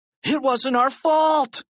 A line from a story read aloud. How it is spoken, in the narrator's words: cried Harold